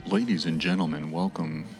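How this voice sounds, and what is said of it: Polished radio announcer voice. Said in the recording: “It's a good radio voice... has an amazing podcast voice.”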